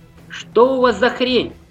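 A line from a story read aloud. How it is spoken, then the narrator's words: Shouting out. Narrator (Russian): выкрикнул он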